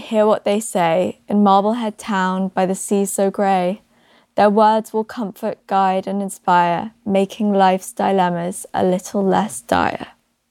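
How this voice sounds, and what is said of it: Speaks with a noticeable accent. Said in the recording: “my accent fucked up some of the rhymes”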